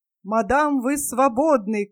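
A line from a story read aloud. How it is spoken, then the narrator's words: Beautiful-voiced shout. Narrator (Russian): крикнул я своим прекрасным голосом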